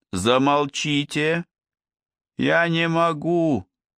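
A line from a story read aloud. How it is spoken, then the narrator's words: Girl's moan. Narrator (Russian): простонала девушка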